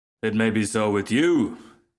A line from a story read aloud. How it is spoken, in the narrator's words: he answered